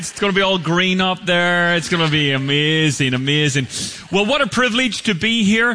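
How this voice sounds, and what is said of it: Irish accent. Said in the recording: “this is an Irish accent”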